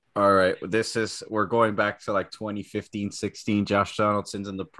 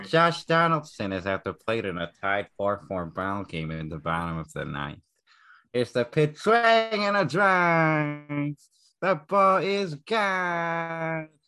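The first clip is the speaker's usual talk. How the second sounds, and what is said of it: Buck Martinez play-by-play impression. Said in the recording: “one last Buck Martinez, Josh Donaldson, from our resident impersonator ... I love his impression so much”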